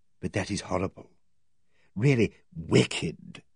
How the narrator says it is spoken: she said in a very low voice

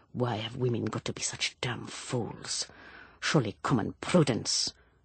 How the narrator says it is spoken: He muttered under his breath

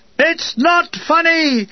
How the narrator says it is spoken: The colonel shouted

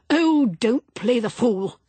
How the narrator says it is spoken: snapped Percival

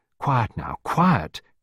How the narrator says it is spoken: Clarissa murmured soothingly

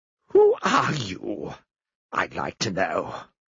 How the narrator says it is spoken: Eustace spat the words out at him

